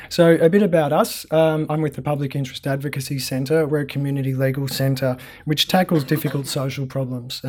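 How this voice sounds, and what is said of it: Hoarse, fading voice. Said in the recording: “I'm kind of losing my voice a bit”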